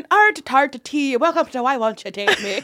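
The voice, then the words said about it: Put-on Irish accent. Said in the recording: “my Irish accent... That's really good. Well, better than ours.”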